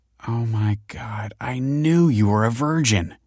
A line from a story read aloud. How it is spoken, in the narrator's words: she groaned